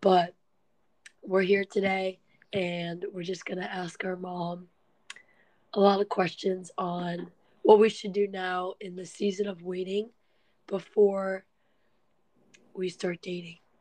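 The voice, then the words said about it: Sick-sounding voice. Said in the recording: “I apologize for my voice. I've been kind of sick”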